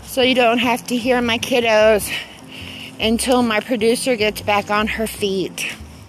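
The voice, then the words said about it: Breathless, out of breath speech. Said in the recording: “out of breath because I'm taking my walk”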